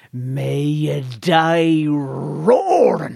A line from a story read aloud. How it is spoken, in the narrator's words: This woman is throwing a curse on another woman, and she roars out